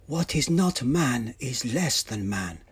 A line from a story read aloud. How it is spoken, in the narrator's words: Cheyenne said softly